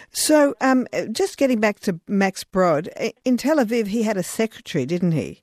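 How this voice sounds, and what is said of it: Australian accent. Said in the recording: “It's my Australian accent.”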